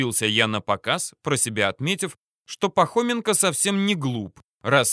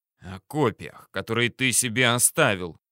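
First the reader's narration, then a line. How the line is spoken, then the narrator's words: Hissed. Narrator (Russian): прошипел Пахоменко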